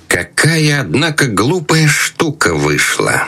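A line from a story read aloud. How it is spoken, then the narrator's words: Through gritted teeth. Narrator (Russian): Крестный процедил сквозь зубы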